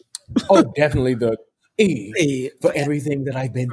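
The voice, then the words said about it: Put-on British accent. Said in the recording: “Excuse my British accent”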